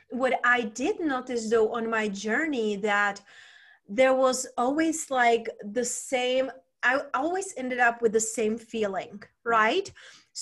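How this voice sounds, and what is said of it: Czech accent. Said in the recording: “where is her accent from? So originally I was raised and born in Czech Republic”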